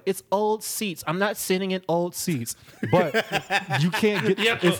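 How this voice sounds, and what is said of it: Exaggerated mocking impression of girlfriend. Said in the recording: “That was a fucked up impersonation ... we know you don't sound like that”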